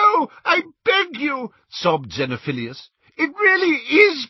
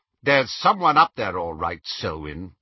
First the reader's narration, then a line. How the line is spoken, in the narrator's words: said the second man sharply